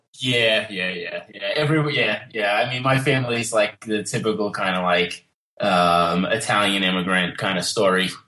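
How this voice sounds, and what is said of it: New York Long Island accent. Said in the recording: “your accent ... New York, Long Island area”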